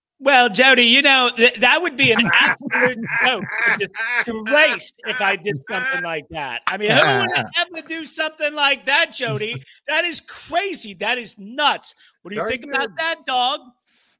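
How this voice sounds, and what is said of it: Mad Dog impersonation. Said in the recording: “your Mad Dog impersonation ... Very good”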